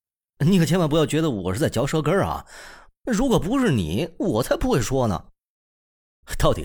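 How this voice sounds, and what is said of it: Usual voice. Nothing is said of it.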